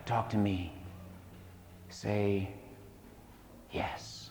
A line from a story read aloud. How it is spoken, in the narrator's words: he whispered